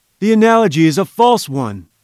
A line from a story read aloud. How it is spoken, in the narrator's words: cried Challenger